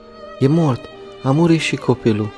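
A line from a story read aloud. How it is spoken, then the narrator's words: Father crying and shouting. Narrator (Romanian): Tata a început să plângă și a strigat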